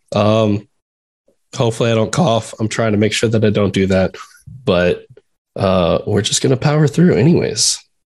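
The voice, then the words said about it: Sick, funny-sounding voice. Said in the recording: “I'm also a little sick. So my voice sounds funny.”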